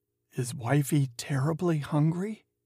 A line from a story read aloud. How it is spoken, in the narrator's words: whispered